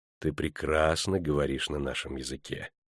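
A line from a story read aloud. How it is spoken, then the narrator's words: Calm. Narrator (Russian): спокойно пояснил он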